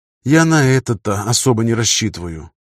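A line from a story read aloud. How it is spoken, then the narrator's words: Sigh. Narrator (Russian): вздохнул Кевин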